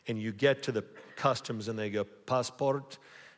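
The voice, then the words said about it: Bad put-on German accent. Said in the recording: “that was a horrible accent. ... Too many movies watching those German voices”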